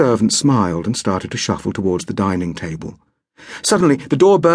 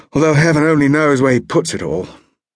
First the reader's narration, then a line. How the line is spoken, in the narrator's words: sighed